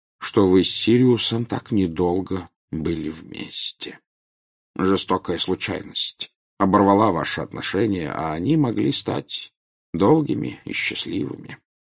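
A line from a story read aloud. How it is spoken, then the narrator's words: Quiet. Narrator (Russian): тихо сказал Дамблдор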